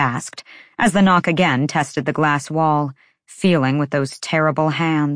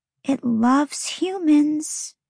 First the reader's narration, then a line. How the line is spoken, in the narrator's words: Lahaba whispered